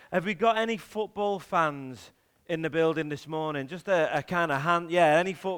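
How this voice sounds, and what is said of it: Liverpool accent. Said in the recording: “You've probably guessed from the accent, I'm a Liverpool fan.”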